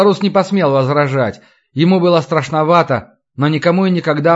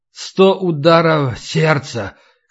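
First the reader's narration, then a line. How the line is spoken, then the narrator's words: Hoarse reply. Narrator (Russian): хрипло ответил Илай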